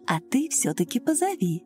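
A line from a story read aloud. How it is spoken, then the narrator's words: Soft, motherly. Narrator (Russian): мягко так по-матерински повторила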